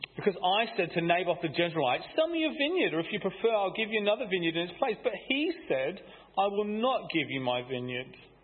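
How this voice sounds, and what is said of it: Sulky child voice. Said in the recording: “do my best sulky child impression.”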